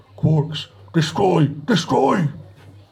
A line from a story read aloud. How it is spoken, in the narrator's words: he hit the comm switch and bellowed